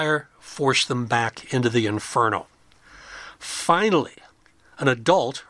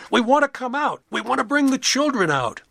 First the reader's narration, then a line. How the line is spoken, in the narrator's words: People inside the house were yelling and screaming